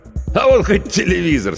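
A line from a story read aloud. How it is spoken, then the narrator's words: Laughing. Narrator (Russian): смеялся Федор Иванович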